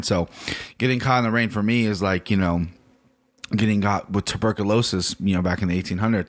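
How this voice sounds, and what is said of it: Hoarse, rough voice. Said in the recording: “I'm a little horsed ... my throat is not great. It doesn't really hurt, but I don't sound myself.”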